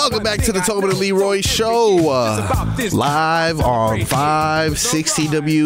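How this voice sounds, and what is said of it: Usual voice. Nothing is said of it.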